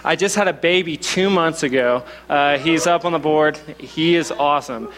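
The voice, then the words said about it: Slight Southern American accent. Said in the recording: “I'm from Oklahoma, so if I have a little bit of a southern accent, that's what it is.”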